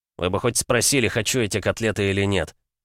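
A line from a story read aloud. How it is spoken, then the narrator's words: Mumbled. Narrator (Russian): Пробормотал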